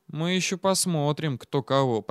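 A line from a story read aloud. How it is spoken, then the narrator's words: Muttering. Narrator (Russian): пробормотал Андрей Васильевич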